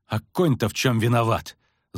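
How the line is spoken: Angry hiss. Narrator (Russian): зло прошипела Мильва

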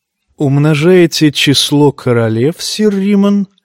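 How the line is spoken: Insinuating question. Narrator (Russian): вкрадчиво спросил его Джейми

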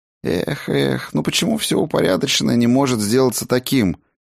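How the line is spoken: Sigh. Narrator (Russian): Хедин вздохнул

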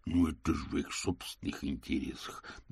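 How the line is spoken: Muttering. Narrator (Russian): И, возможно, гномы в ответ бормотали

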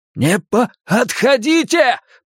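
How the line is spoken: Shouted. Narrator (Russian): прокричал Билл

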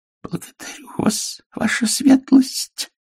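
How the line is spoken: Hoarse. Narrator (Russian): хрипло сказал он

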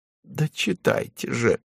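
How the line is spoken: Groaning. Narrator (Russian): простонал он

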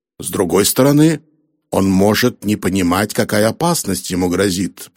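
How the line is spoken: Grumbling. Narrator (Russian): проворчал Харрисон

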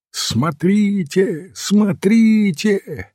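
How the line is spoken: Yelling newsboy. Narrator (Russian): завопил газетчик Снейт

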